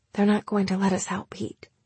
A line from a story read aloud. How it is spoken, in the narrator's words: she said in a low voice, though there was no point in trying to keep it a secret